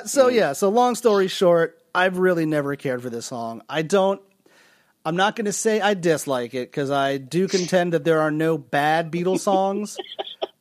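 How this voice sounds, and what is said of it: Begrudging tone of voice. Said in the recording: “your tone of voice is so begrudging right now”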